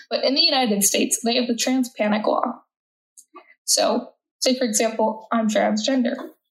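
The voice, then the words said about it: American accent. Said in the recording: “I'm American by my accent.”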